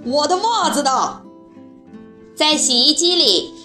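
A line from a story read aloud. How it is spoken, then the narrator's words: Roaring like a lion. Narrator (Chinese): 马天笑先生在卧室里像睡醒的狮子一般吼起来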